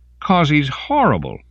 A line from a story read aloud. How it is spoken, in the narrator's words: Melanie shouted